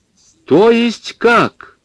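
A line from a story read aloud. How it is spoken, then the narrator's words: Loud speech. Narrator (Russian): громко заговорила массовичка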